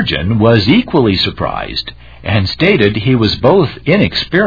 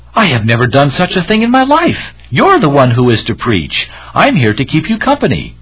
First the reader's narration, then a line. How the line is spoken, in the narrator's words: The companion was startled and cried out